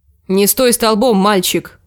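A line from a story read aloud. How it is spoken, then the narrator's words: Sharp bark. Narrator (Russian): рявкнула она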